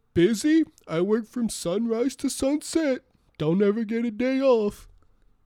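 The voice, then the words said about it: Imitates another person's voice. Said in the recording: “now I'm going to impersonate George”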